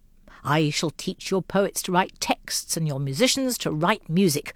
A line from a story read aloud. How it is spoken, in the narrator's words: roared the fictional prophet